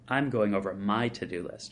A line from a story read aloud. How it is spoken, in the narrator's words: Jennifer says